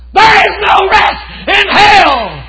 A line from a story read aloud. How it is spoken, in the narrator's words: he screamed